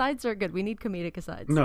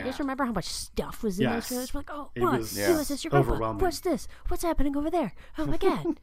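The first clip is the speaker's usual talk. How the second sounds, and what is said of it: Imitating Cartman's voice. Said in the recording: “You sound kind of like Cartman right there. ... I can't do a good Cartman voice”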